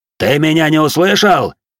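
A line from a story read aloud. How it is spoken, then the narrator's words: Warrior's bark. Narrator (Russian): рявкнул на него воин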